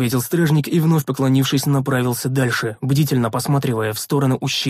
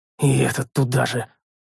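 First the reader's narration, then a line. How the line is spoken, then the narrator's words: Muttered. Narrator (Russian): пробормотал я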